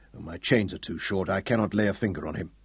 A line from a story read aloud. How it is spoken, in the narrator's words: Sir Francis grunted